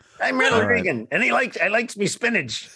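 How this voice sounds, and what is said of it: Mixed Reagan and Popeye impression. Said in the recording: “my Ronald Reagan and my Popeye are almost indistinguishable”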